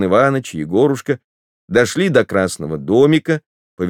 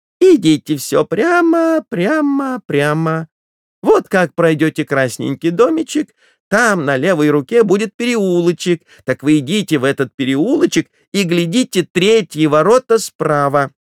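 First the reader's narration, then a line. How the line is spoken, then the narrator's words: Shrill thin shouting. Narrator (Russian): Торговка стала кричать пронзительным тонким голосом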